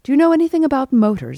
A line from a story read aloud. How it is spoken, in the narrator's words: asked Clifford sharply